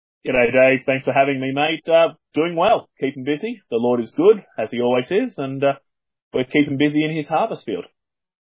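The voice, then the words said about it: Australian accent. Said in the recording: “As people can probably tell from my accent, I'm from down under”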